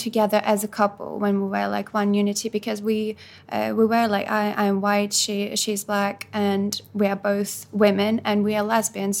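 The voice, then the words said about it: Noticeable foreign accent in English. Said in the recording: “I'm an immigrant as well ... I'm clearly I have an accent”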